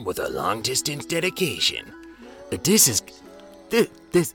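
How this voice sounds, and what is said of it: Casey Kasem impression. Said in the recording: “do a Casey Kasem impression”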